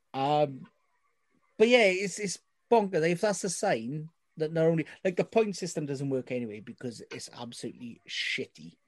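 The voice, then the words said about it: Welsh valleys accent. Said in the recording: “as someone from the deeper depths of the valleys, in case you can't tell by my accent.”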